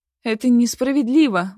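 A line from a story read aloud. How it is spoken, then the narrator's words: Exclaiming. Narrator (Russian): воскликнула я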